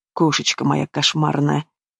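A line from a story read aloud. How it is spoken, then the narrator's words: Approving murmur in ear. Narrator (Russian): Одобрительно бормочет он мне на ухо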